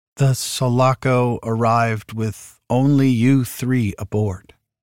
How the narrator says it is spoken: she said, speaking slowly and carefully, like a shrink trying to persuade a suicide bomber to put down the detonator

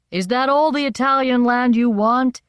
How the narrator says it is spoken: they shouted

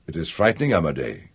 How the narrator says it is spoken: the older brother said in his grave, diffident voice

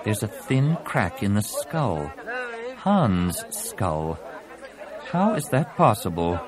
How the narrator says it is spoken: marveled in a distracted tone

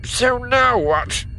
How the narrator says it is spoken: He says, his voice nasal as he smashes his own nose flat with the back of his good hand

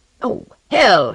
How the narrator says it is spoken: he cried

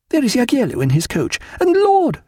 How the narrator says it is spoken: she cried

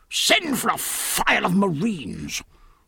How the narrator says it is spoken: roared the Admiral, now scarlet in the face

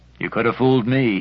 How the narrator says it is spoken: he muttered under his breath, not loud enough for her to hear

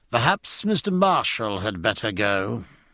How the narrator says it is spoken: he said coldly

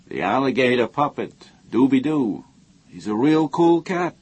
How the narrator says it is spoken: he said

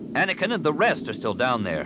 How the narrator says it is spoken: Solasar snapped

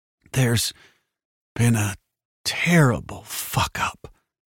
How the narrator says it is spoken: he said hoarsely

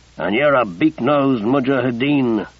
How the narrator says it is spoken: Casey growled back

